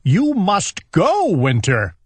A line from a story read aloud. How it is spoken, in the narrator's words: shouted Owl